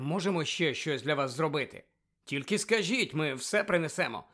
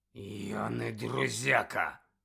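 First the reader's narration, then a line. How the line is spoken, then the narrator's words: Growl. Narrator (Ukrainian): прогарчав професор Мейер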